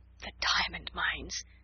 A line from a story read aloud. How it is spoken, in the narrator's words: giggled Jessie in a whisper